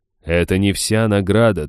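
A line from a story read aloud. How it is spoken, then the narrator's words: Solemn announcement. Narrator (Russian): торжественно объявил дух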